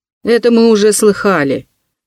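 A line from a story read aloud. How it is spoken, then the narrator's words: Sarcastic snort. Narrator (Russian): язвительно хмыкнул слесарь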